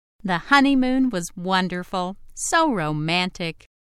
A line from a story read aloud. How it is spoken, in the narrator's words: exclaimed